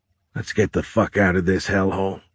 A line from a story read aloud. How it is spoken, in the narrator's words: he said